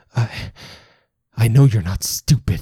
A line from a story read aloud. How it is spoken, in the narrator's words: he stutters